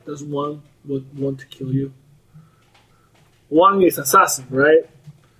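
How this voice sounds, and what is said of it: Put-on character accent. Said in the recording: “your accent. ... roleplay.”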